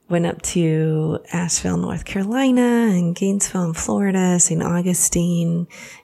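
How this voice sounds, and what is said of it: Voice a little bit off. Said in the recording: “my voice is a little bit off”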